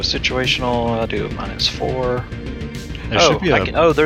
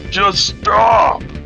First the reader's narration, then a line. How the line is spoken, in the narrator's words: He just shouts at the guy and says